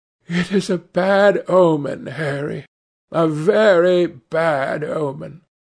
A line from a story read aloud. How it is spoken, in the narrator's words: Dorian said, with a heavy sigh